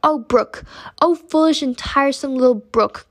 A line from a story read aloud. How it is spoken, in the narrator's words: cried little Pearl